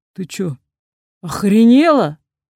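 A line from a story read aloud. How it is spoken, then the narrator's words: Roaring. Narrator (Russian): взревел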